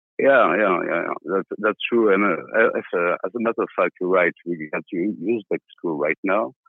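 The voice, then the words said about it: Speaks English with an accent. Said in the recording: “my accent”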